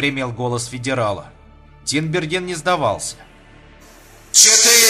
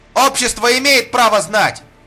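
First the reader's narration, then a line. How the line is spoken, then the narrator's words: Reporter shouting. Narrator (Russian): крикнул репортер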